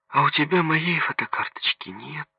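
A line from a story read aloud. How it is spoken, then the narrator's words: Sighing. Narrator (Russian): вздохнула Соня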